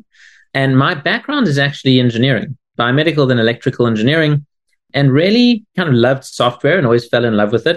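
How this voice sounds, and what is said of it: South African accent. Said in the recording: “where on earth is that strange accent from? ... I'm originally from South Africa”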